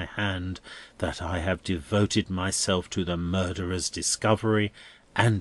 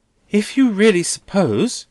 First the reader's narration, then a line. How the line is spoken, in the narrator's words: Rosa pleads with him, turning paler